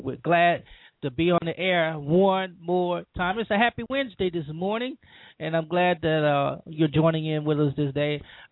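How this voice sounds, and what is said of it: Groggy, congested voice. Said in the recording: “I'm a bit under the weather. My sinuses just won't act right ... if I sound a little groggy, I am ... sinus medicine”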